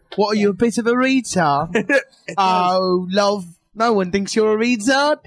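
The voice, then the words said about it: Put-on British accent. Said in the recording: “that accent, it doesn't make it better, asshole. You're not British. ... You're not British because British accent makes it better.”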